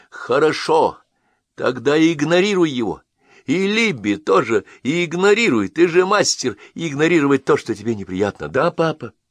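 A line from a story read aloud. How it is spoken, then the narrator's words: Nearly shouting. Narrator (Russian): Я почти выкрикнул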